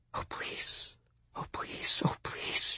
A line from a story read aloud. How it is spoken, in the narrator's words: whispered